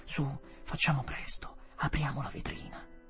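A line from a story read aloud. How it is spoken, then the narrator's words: Feverish, low voice. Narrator (Italian): Io avevo la febbre e dissi sottovoce a mia moglie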